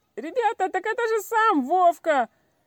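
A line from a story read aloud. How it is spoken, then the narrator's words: Sudden yell. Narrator (Russian): вдруг завопил Петька Редькин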